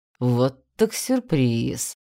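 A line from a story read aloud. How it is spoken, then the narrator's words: Man's drawn-out drawl. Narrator (Russian): протянул мужчина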